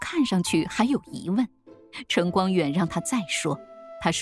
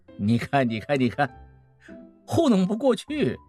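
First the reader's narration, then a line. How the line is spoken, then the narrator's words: Laughing. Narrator (Chinese): 孟梅又笑了说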